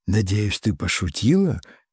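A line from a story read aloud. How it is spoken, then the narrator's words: Quiet, incredulous. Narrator (Russian): ее голос прозвучал тихо и недоверчиво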